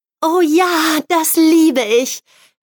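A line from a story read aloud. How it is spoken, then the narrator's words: Happy exclamation. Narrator (German): rief sie glücklich aus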